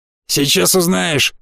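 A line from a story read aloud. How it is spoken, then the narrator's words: Smirking grunt. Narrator (Russian): хмыкнул Захар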